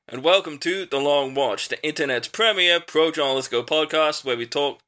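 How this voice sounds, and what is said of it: Put-on Southern accent. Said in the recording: “Southern accents, yeah. ... That was a southern accent, was it?”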